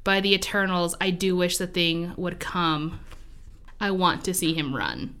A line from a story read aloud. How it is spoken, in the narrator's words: Tiring of the bravado, Jackson whispered